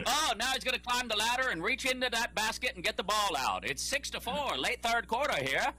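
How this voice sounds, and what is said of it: Old-timey radio announcer voice. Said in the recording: “Do the rest of the show in that voice ... old timey radio voice ... nailed it”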